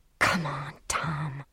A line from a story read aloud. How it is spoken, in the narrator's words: she whispered